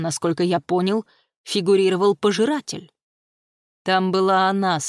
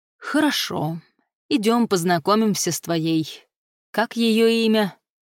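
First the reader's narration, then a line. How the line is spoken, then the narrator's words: Weary. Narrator (Russian): устало выговорил Дасх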